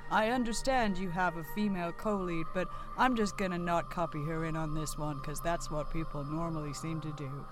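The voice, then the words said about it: Speaks in a put-on accent. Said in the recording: “why are you talking in that accent? ... it's to differentiate me from anyone else I might be playing”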